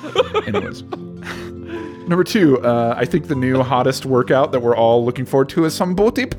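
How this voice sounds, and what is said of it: Usual voice. Nothing is said of it.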